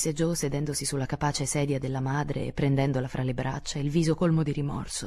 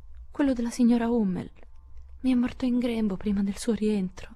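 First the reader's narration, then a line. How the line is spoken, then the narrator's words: Moaning. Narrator (Italian): gemette Beth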